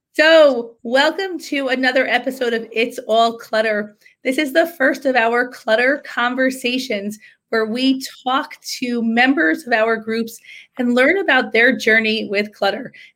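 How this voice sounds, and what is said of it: Sick, under-the-weather voice. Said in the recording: “excuse my voice. I'm a little under the weather.”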